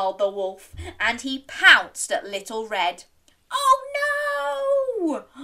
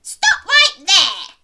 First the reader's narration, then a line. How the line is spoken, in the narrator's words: yelled Granny